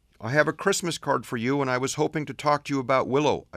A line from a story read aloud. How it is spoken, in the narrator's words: pleaded